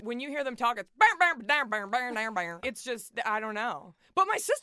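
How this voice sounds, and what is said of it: Strong Texan accent. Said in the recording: “You have the strongest accent of any of us, and you're the furthest north.”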